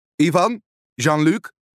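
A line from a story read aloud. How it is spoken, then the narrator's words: Calling to sailors. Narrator (Dutch): roept hij naar zijn matrozen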